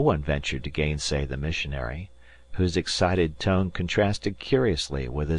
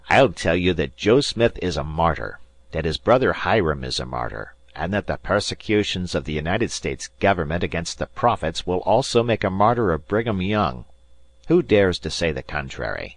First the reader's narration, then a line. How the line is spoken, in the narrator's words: Elder William Hitch rose, and, in an irritated voice, as if he had already been contradicted, said